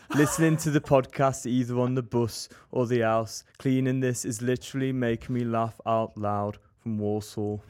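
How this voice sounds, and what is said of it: Birmingham accent. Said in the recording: “I hate the Birmingham accent ... That's like the one accent I can do. That's because I have family from there.”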